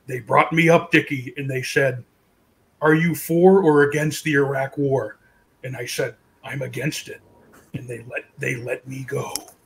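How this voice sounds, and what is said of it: Imitates another person's voice. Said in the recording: “this is my Ventura impression.”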